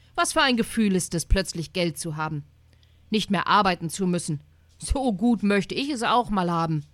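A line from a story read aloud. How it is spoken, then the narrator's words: Exclaiming. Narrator (German): rief er aus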